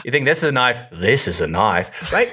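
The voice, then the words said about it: Put-on Australian accent. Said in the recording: “If you were an Australian Shepherd, would you do the accent? ... Oh, for sure.”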